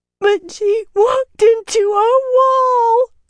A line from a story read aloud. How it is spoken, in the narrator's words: Corrida wailed